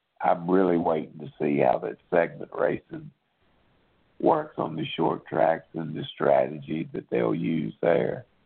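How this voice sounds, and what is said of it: Hoarse, strained voice. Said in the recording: “Damn, I'm losing my voice.”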